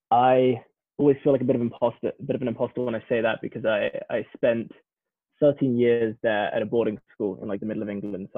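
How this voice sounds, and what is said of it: Strong English accent. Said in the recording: “There's definitely a strong English accent coming through.”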